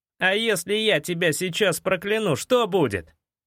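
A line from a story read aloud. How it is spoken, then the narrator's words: Angry bark. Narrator (Russian): рявкнул я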